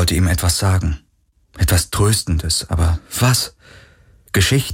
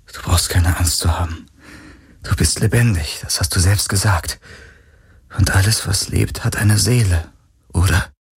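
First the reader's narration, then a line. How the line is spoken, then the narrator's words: Gentle voice. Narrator (German): sagte er mit sanfter Stimme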